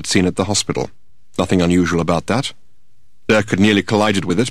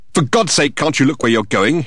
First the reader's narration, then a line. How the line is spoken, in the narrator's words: he exclaimed